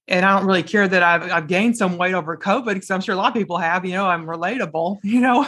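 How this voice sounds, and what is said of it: Southern American accent, strong low voice. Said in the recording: “I'm Southern. So I have like a Southern accent ... my voice is strong, even though it sounds masculine, it's a strong voice”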